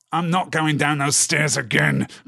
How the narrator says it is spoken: growled Snugger

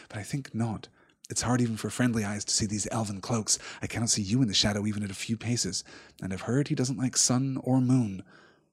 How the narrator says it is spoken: said Frodo quietly

